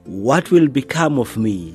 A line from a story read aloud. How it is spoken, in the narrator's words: cried